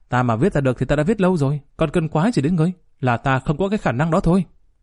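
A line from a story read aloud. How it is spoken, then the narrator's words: Angry. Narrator (Vietnamese): Cao Nhà Nội giận dữ nói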